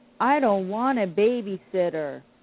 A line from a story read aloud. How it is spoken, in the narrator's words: Sugar Paw cried